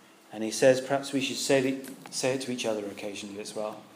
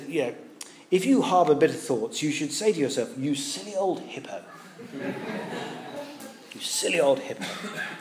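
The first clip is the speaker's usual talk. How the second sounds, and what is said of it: Very posh English accent, John Stott. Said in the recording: “Great old, very posh gentleman from up in the centre of London... You imagine him in a very posh English accent.”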